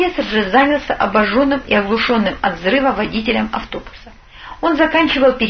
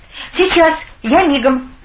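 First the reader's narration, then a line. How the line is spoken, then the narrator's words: Young man shouting. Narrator (Russian): крикнул парень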